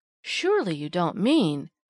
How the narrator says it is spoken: gasped Polly

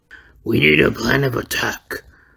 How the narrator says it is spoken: Venom growled

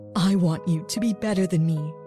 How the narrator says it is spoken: my mother said in a trembling voice

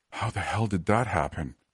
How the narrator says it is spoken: I gasped

